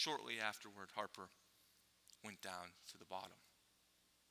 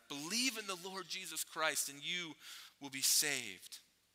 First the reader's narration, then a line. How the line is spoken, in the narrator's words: Harper pleaded with him with his dying breath